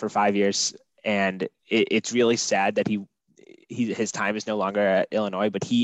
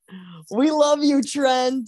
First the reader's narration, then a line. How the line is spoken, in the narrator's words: And I just yell out